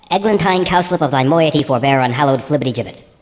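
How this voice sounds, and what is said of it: Very fast mock-Shakespearean gibberish. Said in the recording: “say it fast”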